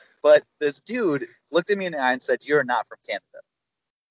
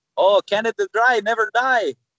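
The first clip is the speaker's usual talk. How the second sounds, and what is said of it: Put-on Egyptian accent. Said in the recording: “they say in their Egyptian accent”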